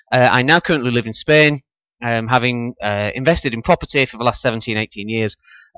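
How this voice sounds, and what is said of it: Northern English accent. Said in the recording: “as you can probably tell from the accent, I'm from the north of England”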